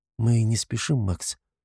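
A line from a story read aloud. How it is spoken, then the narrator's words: Vulnerable questioning voice. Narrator (Russian): уязвимым голосом спрашивает она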